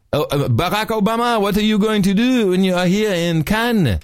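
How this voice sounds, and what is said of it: Put-on French accent. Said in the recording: “kind of like French accent, of course.”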